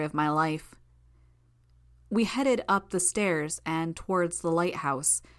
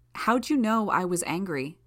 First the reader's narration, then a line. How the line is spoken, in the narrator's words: I asked